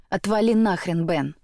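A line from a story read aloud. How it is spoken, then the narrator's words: Growl. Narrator (Russian): рыкнул Бек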